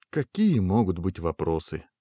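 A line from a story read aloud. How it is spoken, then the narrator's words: Sighing. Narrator (Russian): вздохнул Гуго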